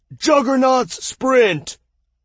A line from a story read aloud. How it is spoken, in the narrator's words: A massively armored man bellowed